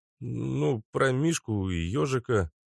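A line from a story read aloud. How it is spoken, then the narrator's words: Hoarse voice. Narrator (Russian): ответил осипшим голосом Гук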